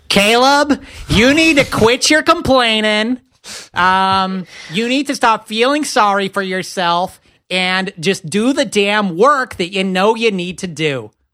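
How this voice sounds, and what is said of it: Scolding mom voice. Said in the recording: “Can you do that in like a mom voice when you haven't done your homework?”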